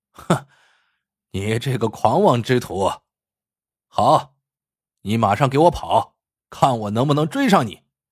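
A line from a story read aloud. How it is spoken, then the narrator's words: Laughing wildly. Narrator (Chinese): 詹小三狂笑起来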